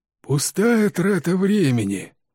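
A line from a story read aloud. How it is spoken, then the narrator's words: Grumbling. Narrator (Russian): проворчал мистер Питерсон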